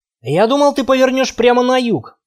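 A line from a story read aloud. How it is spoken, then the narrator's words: Grumble while chewing. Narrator (Russian): пробурчал Макс, отгрызая кусок мяса от кости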